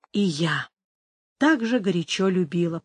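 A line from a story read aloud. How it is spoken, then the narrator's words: Whisper. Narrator (Russian): прошептала Амаранта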